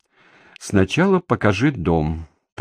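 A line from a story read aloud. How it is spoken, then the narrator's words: Gloomy. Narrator (Russian): произнесла она мрачно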